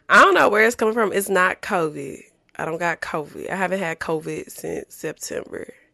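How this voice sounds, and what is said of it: Sick, low-energy voice. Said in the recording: “I've been a little under the weather. You can probably hear it in my voice. I sound very sick.”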